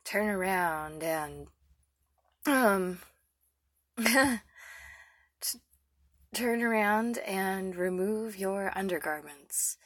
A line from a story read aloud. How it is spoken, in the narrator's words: He said huskily